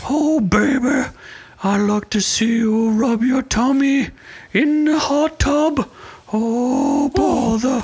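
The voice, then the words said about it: Winnie the Pooh voice impression. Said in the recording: “I can only do a Pooh voice.”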